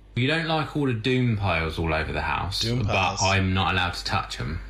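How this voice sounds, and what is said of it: Foreign accent, origin unclear. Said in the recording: “They're from some other country. They have an accent. I'm not sure exactly where”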